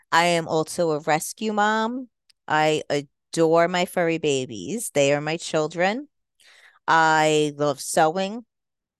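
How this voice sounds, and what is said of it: Slight New York accent, mixed. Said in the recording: “a little bit of a New York accent too ... a little bit of a mixture in my accent”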